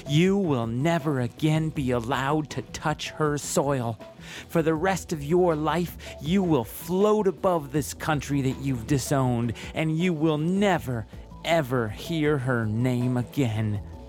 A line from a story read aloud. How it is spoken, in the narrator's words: the judge screamed at me